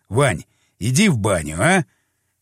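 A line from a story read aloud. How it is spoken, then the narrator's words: Rough, rude. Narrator (Russian): Как-то грубо прозвучало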